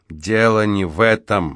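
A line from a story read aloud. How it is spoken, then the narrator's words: Gloomy objection. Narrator (Russian): мрачно возразил Спинк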